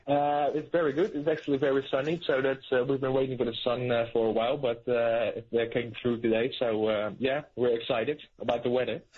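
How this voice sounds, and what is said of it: Dutch accent. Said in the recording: “I love the accent. It's good.”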